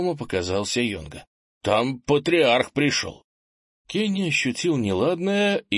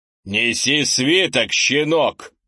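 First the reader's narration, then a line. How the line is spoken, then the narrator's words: Rough commanding elder. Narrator (Russian): грубо приказал патриарх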